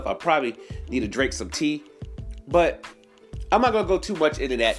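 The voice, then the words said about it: Stuffy, congested voice. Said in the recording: “Pardon me if I have the sniffles, y'all. My sinus is kicking in. That's why I sound a little stuffy”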